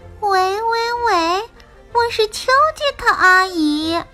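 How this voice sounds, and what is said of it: Pinched-nose fake female voice. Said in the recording (Chinese): “他会捏着鼻子假装女生的声音说”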